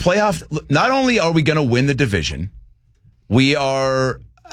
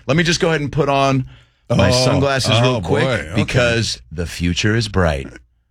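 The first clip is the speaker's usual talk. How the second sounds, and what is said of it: Impression of Sam Darnold. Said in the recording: “My impression of Sam Darnold when he got it”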